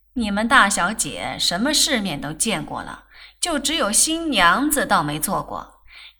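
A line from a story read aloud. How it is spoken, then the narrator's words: Giggling. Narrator (Chinese): 洪才嘻嘻笑着向他母亲说道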